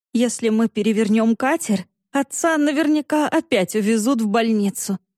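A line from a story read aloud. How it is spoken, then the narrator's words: Laughing. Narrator (Russian): рассмеялась Саша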